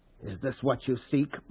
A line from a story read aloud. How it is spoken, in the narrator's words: Paul whispered